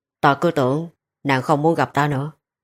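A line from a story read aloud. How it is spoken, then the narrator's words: Hesitant, downcast. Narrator (Vietnamese): hắn khẽ khựng lại một lúc, rồi hạ mắt nói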